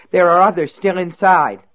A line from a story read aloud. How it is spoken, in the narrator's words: she cried